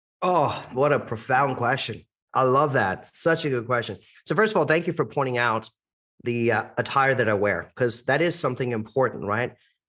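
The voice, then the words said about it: American-sounding accent. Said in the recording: “My accent gives me away. Most people mistakenly think I'm American or Canadian, but I am Indian ... an Indian with an American accent”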